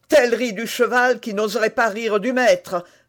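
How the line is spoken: Furious exclamation. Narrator (French): s'écria l'émule de Tréville furieux

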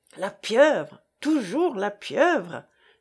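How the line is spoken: Exclaiming. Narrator (French): s'écria Jean

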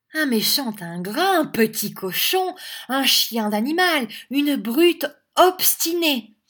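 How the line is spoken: Woman exclaiming angrily. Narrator (French): s'écria Madame Squeers

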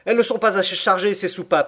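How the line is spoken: Exclaiming. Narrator (French): s'écria-t-il

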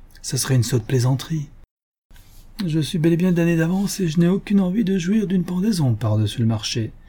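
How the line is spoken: Forced playful tone. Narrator (French): fit-il d'un ton badin, mais forcé

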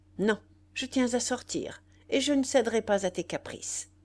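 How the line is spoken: Sharp, harsh retort. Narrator (French): Elle répliqua nettement, durement

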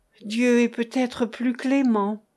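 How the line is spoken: Mother's timid voice. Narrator (French): disait timidement ma mère

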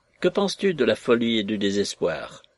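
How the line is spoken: Pedantic professorial tone. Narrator (French): Le professeur prononça d'un ton doctoral

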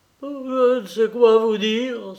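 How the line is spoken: Exclamation. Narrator (French): s'écria-t-il

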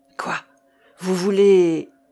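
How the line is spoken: Terrified exclamation. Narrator (French): s'écria Jocelyn avec épouvante

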